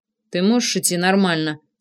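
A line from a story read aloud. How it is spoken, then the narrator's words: Through gritted teeth. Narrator (Russian): сквозь зубы произнес я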